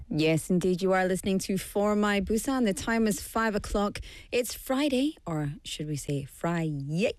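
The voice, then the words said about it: Slightly hoarse, croaky voice. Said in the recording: “I can't sing. It's my throat ... as you can hear in my voice, I still have a little frog in my throat ... if I cough a little bit”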